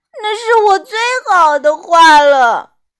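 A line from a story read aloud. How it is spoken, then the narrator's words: Crying. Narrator (Chinese): 安博哭道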